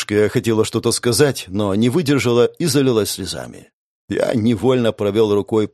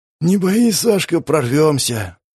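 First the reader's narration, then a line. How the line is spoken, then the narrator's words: Hoarse rasp. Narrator (Russian): прохрипел я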